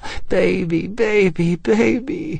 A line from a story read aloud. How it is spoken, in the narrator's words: Lindy cried